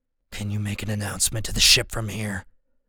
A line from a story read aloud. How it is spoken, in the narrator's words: he asks, his voice low and gravelly